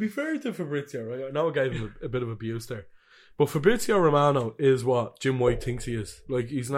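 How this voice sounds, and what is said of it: Usual voice. Nothing is said of it.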